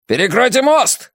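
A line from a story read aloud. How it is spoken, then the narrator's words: Shouted. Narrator (Russian): закричал один из них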